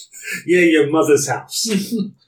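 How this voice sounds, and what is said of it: Put-on New York accent. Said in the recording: “someone with a New York accent”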